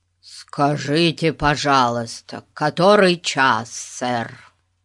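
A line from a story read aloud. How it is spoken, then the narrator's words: Surprisingly low, hoarse voice. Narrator (Russian): произнес Пип на удивление низким, хриплым голосом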